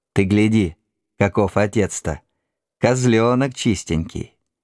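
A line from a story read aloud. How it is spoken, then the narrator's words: Cheerful laughing. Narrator (Russian): Мать весело засмеялась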